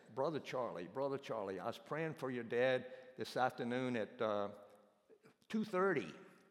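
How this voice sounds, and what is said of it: Imitated Romanian accent. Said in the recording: “he's got this Romanian accent.”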